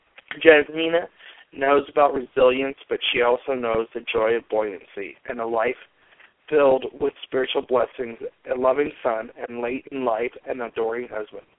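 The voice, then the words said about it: Congested, slightly rough voice. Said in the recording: “Pardon my voice. I have a bit of a cold.”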